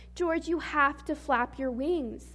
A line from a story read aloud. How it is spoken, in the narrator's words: shouted his mom